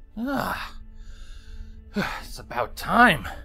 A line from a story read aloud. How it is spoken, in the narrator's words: Longshot gasped as he took a swig of water